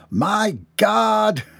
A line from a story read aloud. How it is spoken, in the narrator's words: shrieked involuntarily